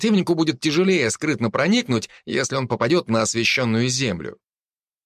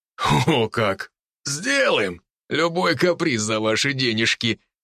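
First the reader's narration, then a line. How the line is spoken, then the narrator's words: Loud laughing. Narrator (Russian): захохотал мужчина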